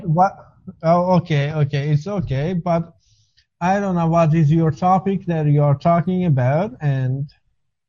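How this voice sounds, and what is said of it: Foreign accent, possibly Israeli-sounding. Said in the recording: “are you my friend from Israel? ... Your accent reminded me of”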